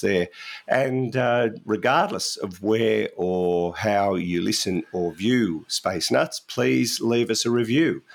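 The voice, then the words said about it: Strained, unwell voice. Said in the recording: “I'm going to give my voice a rest ... Your voice actually sounds pretty good now ... Sounds dreadful to me ... Just need to rest it.”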